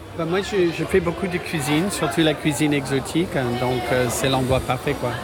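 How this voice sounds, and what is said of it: Slight American accent in French. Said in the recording (French): “Je reconnais un petit accent ... je suis américain”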